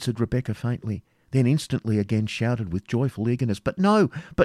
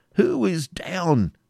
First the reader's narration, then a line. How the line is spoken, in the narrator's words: cried Ivanhoe